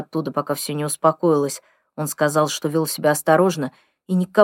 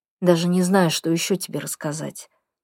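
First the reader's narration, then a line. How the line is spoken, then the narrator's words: Tired. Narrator (Russian): устало говорит Айрис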